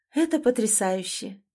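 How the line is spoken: Soft, confident, pleasant voice. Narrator (Russian): Ее голос звучал мягко, но уверенно, именно с той интонацией, которую хотелось слушать

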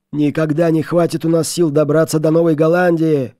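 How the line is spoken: Desperate group shouting. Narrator (Russian): кричали бедняги

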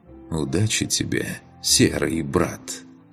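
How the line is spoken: Soft rustling inner voice. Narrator (Russian): Тихо прошелестело в его голове

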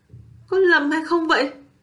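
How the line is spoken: Astonished cry. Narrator (Vietnamese): Kim Kiền kêu lên kinh ngạc

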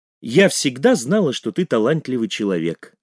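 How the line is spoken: Plain. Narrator (Russian): сказала София

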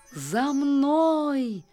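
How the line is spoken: Joyful calling out. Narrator (Russian): радостно взывало

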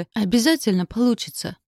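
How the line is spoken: Fervent exclamation. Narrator (Russian): с жаром воскликнула Амелия

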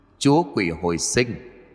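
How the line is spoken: High-pitched eerie laughing voice. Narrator (Vietnamese): Giọng của hắn vút cao kèm theo với giọng điệu cười đầy ma quái

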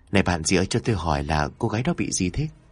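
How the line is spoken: Soft question. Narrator (Vietnamese): cô mới khẽ hỏi

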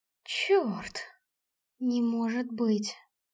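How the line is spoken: Shocked whisper. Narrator (Russian): прошептала я потрясенно

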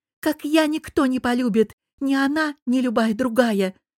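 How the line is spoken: Blurted out, then sobbing. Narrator (Russian): выпалила Аня и всхлипнула

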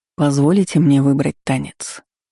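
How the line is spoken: Purring. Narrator (Russian): мурлыкнул

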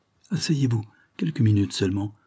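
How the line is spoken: Pleading voice. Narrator (French): lui dit Carlyle d'une voix suppliante

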